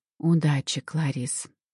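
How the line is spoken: Quiet witch's voice. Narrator (Russian): негромко проговорила верховная ведьма

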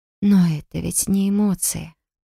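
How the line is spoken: Muttered. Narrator (Russian): пробормотала я

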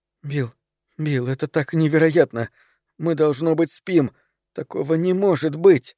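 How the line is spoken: Whispered. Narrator (Russian): Она шептала

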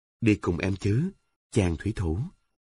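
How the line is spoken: Soft, alluring whisper. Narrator (Vietnamese): nở một nụ cười nhẹ nhàng hấp dẫn, nói nhỏ

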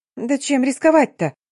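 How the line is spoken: Emboldened squeak. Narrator (Russian): пискнула осмелевшая Полина

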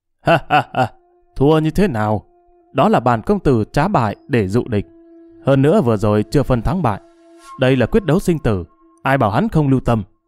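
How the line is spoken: Laughing loudly. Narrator (Vietnamese): Trầm Tú cười lớn nói

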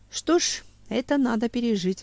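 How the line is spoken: Sighing. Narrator (Russian): вздохнул Семен

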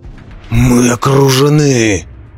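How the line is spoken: Alarmed roar. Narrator (Russian): проревел Роди МакГрисл, увидев группу великанов, двигающуюся по верхним тропам

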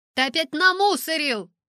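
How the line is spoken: Shouting. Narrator (Russian): закричала я

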